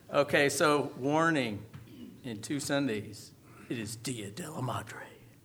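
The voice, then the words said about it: Suspenseful, ominous voice. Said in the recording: “my suspenseful voice ... That sounds ominous”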